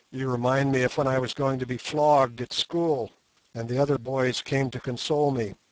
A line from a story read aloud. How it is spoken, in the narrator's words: he said gloomily